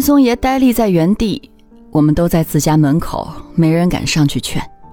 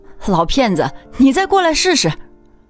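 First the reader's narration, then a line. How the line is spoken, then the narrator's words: Sudden loud shout. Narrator (Chinese): 凤娘突然大声喊着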